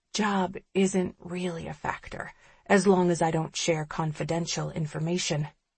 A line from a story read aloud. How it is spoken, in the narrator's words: I whisper